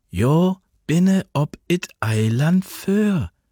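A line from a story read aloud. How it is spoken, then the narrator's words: Slow, patient, as to child. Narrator (German): sagte sie, langsam und geduldig, als spräche sie zu einem Kind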